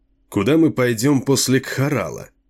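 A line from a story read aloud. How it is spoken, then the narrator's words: Sighing, peaceful question. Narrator (Russian): Затем Чейн вздохнул и мирно спросил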